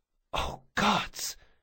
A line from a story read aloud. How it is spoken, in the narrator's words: she whispered